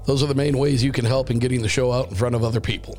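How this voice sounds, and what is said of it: Rough, strained voice. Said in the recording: “apologize for my voice, as I am still trying to get over whatever the hellish thing is that I caught... the voice is just taking a complete and utter ass beating”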